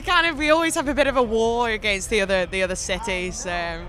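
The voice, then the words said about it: Northern English, mostly Scouse accent. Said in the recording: “such a massive contrast even between Liverpool and Manchester accent, and I'm wedged in between the two. ... So I have an influence from both cities. So I'd say I'm more Scouse”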